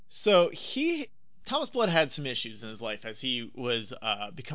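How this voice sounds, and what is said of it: Usual voice. Nothing is said of it.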